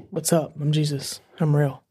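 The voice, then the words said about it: Elvis-like impression voice. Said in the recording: “That sounded a bit like Elvis.”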